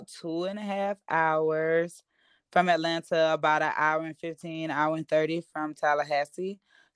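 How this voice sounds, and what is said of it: Deep small-town Southern accent. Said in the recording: “I definitely knew you weren't from Atlanta. Because the accent was so deep and you definitely gave me like a hometown, small town vibe.”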